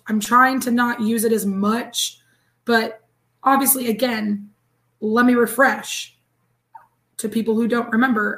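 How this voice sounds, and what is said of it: Hoarse, raspy voice. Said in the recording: “I sound like a pack a day smoker”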